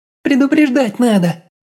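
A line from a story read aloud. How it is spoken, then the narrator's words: Nervous squeal. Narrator (Russian): взвизгнула гадюка нервно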